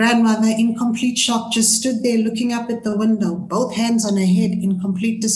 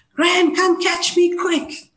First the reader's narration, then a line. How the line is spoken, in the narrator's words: screamed again